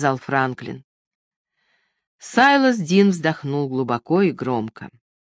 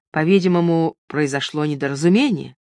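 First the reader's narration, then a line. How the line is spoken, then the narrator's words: Gloomy declaration. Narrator (Russian): заявил он мрачно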